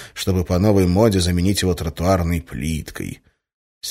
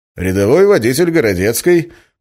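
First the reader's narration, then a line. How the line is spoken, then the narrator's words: Cheerful clowning reply. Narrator (Russian): почему-то столь же бодро и даже дурашливо ответил я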